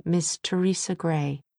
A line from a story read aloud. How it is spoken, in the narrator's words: she said faintly